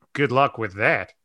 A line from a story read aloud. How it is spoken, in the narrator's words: Chris muttered